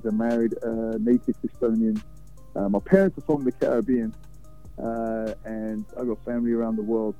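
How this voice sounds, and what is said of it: Slight British London accent. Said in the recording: “there's a little bit of an accent there. You know, it doesn't sound like that native Texas accent either... I'm from London, born and raised... I will consider myself British first”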